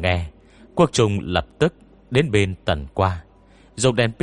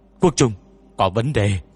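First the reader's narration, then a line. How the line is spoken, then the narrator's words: Frightened loud shout. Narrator (Vietnamese): Liễu Lao Đầu sợ tê mừng hét lớn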